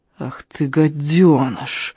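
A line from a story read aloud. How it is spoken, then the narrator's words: Resentful, through gritted teeth. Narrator (Russian): Обиженно процедил Даннер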